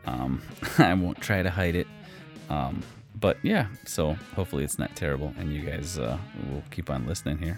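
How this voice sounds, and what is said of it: Slight Wisconsin Midwestern accent. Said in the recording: “I've been told I do have a bit of a Wisconsin accent.”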